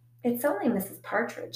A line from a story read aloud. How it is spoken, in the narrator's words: I said